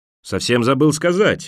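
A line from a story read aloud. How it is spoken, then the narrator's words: Exclaimed. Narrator (Russian): воскликнул Мэг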